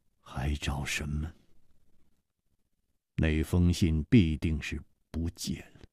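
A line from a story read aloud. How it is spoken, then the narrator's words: Mumbling. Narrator (Chinese): 张孝林喃喃地说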